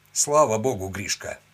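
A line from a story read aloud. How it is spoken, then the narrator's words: Short laugh. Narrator (Russian): хохотнул пластун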